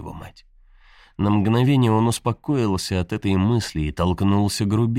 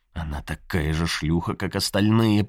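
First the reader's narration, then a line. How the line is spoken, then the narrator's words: Irritated repetition to himself. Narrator (Russian): повторил он себе более раздраженно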